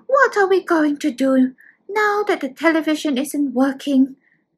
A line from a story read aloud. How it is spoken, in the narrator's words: Xiaoming sighs